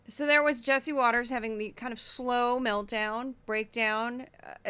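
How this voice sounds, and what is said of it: Usual voice. Nothing is said of it.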